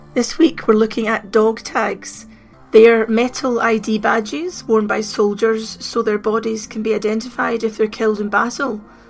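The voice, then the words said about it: Very hoarse voice from cold. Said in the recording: “apologise for my voice. I've had a bad cold this week and my voice has gone very hoarse ... I don't always sound like this”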